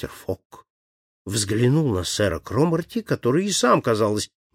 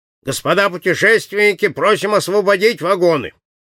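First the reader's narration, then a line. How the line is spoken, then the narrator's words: Loud announcement. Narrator (Russian): Кондуктор громко объявил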